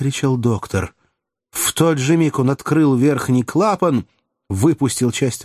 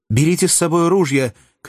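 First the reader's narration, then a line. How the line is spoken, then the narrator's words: Shout. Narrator (Russian): крикнул Фергюсон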